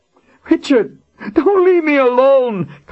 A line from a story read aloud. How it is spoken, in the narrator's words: Colin wailed on the edge of hysteria